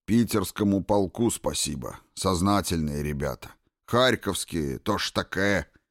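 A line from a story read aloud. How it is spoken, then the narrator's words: Sighing. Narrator (Russian): вздохнул Жадов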